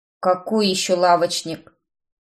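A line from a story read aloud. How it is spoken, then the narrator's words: Grumbling. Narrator (Russian): проворчал мужчина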